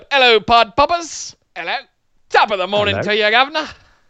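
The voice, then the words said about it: Deliberately bad put-on Irish accent. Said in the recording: “I did an absolutely horrible Irish accent on the show today”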